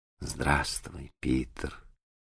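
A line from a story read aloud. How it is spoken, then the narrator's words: Quiet reply. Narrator (Russian): ответила она тихо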